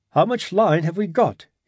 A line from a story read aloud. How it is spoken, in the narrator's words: asked anxiously